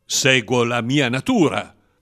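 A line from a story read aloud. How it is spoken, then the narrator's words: Manly voice. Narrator (Italian): rispose con voce maschia l'avversario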